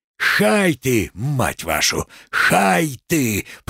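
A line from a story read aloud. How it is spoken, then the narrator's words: Hoarse wheeze. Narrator (Russian): просипел Макс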